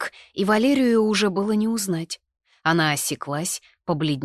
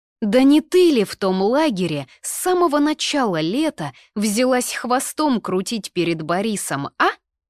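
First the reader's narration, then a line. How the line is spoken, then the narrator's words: Ringing exclamation. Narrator (Russian): звонко воскликнула я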